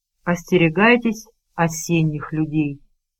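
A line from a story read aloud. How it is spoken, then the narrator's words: Very quiet. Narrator (Russian): Он очень тихо произнес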